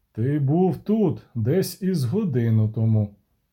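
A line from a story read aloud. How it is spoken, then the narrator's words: Calm. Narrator (Ukrainian): сказав спокійно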